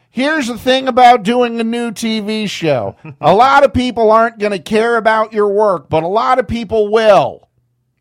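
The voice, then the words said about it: Loud imitation of another person's voice. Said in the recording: “my new David Lynch impression ... everything you say has to be oddly at a loud volume ... you got the timbre right”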